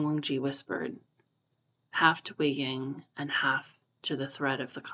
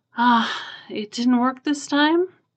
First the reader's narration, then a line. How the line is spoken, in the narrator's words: Wei Ying said drowsily